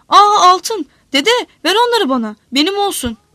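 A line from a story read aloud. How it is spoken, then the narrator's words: Shouting. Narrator (Turkish): diye bağırınca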